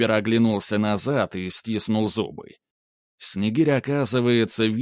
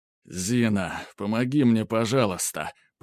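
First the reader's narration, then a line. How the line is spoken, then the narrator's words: Moaning plea. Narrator (Russian): простонал он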